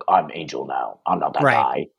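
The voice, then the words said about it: Serious square-jawed character voice. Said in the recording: “bad impression ... Serious square jawed voice”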